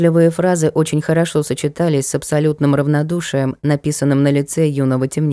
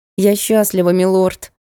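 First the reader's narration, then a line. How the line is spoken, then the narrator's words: Woman speaking through gritted teeth. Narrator (Russian): произнесла принцесса сквозь зубы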